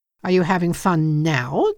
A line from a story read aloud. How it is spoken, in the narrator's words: Dennis asked angrily